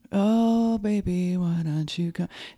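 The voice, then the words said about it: Breathy falsetto singing. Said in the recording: “a falsetto is like... Like, there's this breathiness... That's falsetto.”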